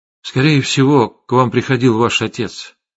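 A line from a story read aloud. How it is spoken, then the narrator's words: Plain. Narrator (Russian): сказал я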